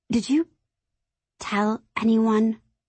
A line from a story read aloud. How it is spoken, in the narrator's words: I ask, my voice shaking a little